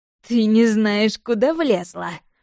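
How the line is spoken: Scoffing grunt. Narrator (Russian): хмыкнула Алена

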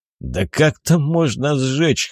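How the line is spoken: Snorting. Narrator (Russian): хмыкнул Афоня

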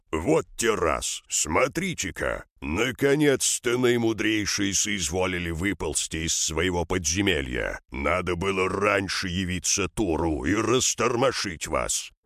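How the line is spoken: Displeased growl. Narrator (Russian): Шабар, услышав стенание стражи, недовольно рыкнул

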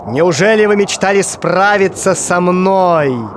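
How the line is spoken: Sorcerer shouting. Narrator (Russian): закричал колдун

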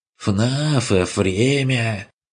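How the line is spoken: Mocking, old man's lisp. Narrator (Russian): Передразнил Курт со старческим шепелявением

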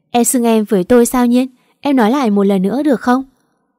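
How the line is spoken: Laughing loudly. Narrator (Vietnamese): Anh cười lớn

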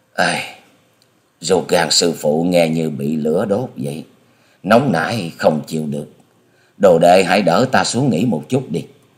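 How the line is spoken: Groaning lip-smacking moan. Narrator (Vietnamese): Hà Xà Tiên Tử chép miệng rên rỉ

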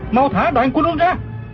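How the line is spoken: Shouting mid-fight. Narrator (Vietnamese): Du Thản Chi vừa đấu chưởng vừa la lên

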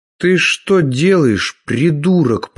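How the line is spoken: Hissed. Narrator (Russian): прошипел он

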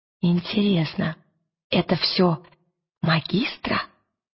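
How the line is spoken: Whisper. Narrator (Russian): прошептала она

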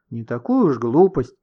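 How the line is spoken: Offended huffing. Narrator (Russian): обиженно засопела Ксюша

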